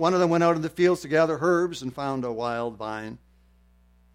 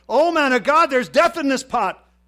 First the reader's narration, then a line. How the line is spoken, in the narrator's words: they cried